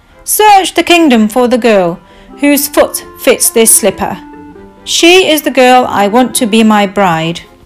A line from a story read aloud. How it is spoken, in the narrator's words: The prince called out to his butler